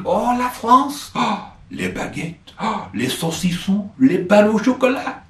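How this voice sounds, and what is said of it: Put-on French accent. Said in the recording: “Apologies for the accent.”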